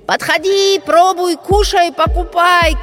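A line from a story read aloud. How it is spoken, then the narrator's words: Shouting crowd. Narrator (Russian): кричали они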